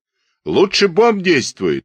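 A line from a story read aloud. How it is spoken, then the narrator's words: Shouting into the wind. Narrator (Russian): прокричал Кузякин на ветер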